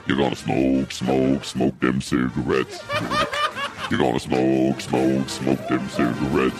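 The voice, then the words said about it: Very deep, low foghorn-like voice. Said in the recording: “That's pretty deep ... Sound like foghorns ... this guy's got a really deep voice”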